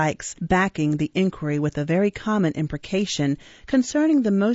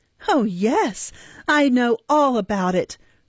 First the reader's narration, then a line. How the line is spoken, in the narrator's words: replied the girl, laughing hysterically, with a poor assumption of indifference